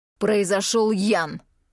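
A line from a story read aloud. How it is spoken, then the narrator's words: Irritated. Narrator (Russian): раздраженно отзывается глава семейства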